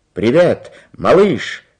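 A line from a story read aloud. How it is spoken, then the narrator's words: Shout. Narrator (Russian): крикнул Карлсон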